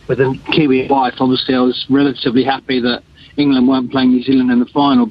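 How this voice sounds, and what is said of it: English accent. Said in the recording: “as you can hear from my voice, I'm English”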